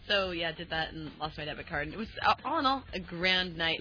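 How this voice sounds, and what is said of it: Sounds a little drunk. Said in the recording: “you sound a little drunk? ... You sound like alcohol, too. ... If alcohol could talk, it would be you right now.”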